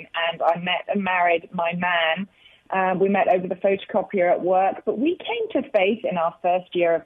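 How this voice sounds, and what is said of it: British accent. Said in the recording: “Don't you guys love her accent? ... she has such a great accent ... How in the world did a Brit end up here”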